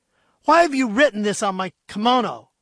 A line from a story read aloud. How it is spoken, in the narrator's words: snarled